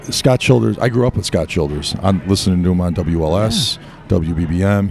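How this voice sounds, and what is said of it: Rough, slightly hoarse voice. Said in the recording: “my voice is a little rough. I'm not feeling 100% today”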